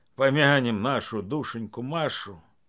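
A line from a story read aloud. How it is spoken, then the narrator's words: Gruff mutter. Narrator (Russian): Свояк Савелий буркнул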